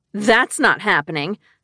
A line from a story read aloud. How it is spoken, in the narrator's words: I scoffed